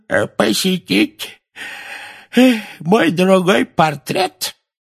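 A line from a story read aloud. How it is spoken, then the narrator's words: Creaky voice, fake yawn. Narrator (Russian): скрипучим голосом сказал Финеас с притворным зевком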